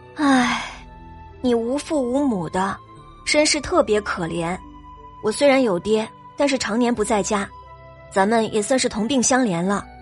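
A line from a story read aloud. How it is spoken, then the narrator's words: Sighing, sad. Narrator (Chinese): 他叹了口气，难过的说道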